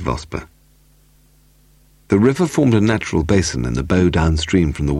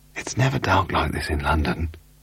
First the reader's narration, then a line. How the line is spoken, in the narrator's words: Charlie Vosper whispered